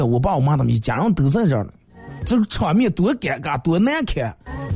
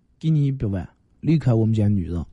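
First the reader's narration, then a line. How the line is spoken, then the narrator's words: Cold. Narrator (Chinese): 他们冷冷的说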